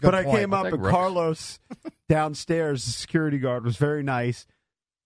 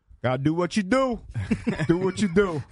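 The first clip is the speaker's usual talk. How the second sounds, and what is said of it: Imitates another person's voice. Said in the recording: “That's a terrible Carlos impression.”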